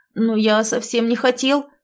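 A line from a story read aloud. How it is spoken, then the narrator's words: Hurt, offended exclamation. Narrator (Russian): воскликнул обиженно Разумовский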